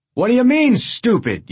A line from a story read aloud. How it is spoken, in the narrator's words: yelled Souvenirs